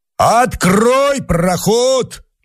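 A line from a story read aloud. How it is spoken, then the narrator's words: Shout from below. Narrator (Russian): крикнул внизу Мишка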